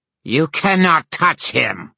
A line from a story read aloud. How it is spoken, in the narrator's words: said Ethna, her voice shimmering with a metallic hum